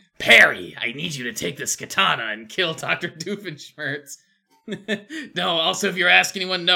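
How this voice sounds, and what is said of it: Usual voice. Nothing is said of it.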